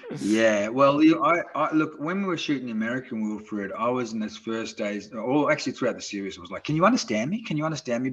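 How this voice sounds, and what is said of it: Australian accent. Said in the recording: “still had my Australian accent”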